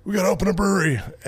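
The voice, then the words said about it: Imitates another person's voice. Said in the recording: “a good Greg impression.”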